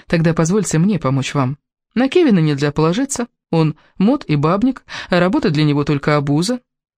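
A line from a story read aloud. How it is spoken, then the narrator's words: Calm. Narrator (Russian): сказала спокойно Элис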